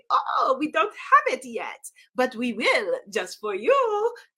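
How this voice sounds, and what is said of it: Put-on bad French accent. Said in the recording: “I'm going to do a French accent, which is a horrible accent. It's terrible.”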